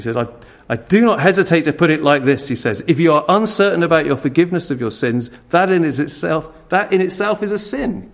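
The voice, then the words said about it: Put-on Welsh accent. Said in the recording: “Try and imagine I'm reading this with a Welsh accent.”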